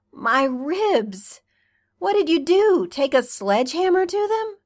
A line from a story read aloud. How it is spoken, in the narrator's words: Allison laughed wetly, a sob hidden behind it